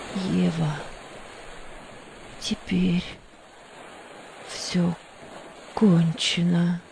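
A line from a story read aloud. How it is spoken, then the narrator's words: Despairing whisper. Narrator (Russian): в отчаянии прошептала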